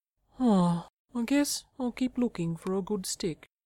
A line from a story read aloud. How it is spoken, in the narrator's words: says Fred sadly